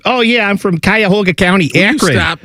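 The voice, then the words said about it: Put-on Cleveland accent. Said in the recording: “up in Cleveland where everything's like ... You know that's how they talk. You hear it.”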